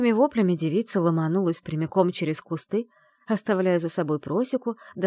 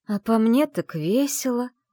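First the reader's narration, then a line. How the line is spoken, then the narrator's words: Through teeth, in pain. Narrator (Russian): процедила она, морщась от боли в голове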